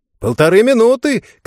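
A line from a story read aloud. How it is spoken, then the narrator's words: Shouting. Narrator (Russian): кричал Винсент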